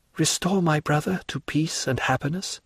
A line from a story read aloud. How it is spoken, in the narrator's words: whispered Julie to Monte Cristo